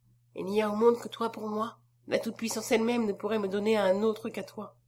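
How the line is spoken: Low voice. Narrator (French): prononça-t-il à voix basse

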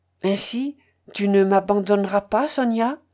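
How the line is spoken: Almost pleading. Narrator (French): fit-il avec un regard presque suppliant

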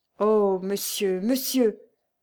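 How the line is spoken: Deeply emotional stammer. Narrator (French): balbutia Lucien en proie à une indicible émotion

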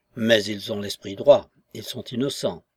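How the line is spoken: Low insistent voice. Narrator (French): insista le grand homme à voix basse

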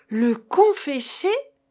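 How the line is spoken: Peasants exclaiming together. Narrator (French): s'écrièrent les paysans

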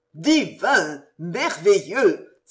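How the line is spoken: Exclaimed. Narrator (French): s'écria le baïf d'épée

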